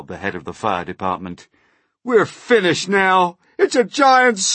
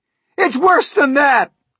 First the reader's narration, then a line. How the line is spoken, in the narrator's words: cried the chief of police